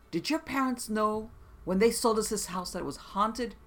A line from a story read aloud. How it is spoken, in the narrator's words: The new owners called her screaming